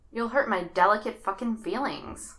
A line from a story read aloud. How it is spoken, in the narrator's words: Bucky muttered